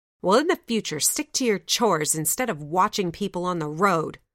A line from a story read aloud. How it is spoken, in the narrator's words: the eldest growled